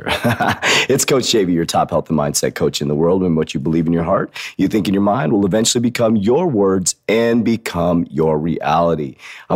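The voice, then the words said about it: Hoarse, losing his voice. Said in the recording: “I'm losing my voice. It's like my sexy voice”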